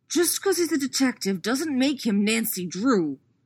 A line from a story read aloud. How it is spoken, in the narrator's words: Jason hisses